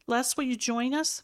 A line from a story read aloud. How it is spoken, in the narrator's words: Mom asked, her tone hopeful